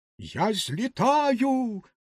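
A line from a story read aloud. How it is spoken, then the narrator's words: Exclaimed. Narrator (Ukrainian): вигукнула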